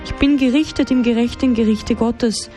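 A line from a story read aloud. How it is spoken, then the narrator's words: Dead man calling out. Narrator (German): der Tote rief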